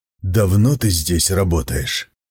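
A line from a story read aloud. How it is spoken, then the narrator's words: Whispered question. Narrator (Russian): Так же шепотом спросил он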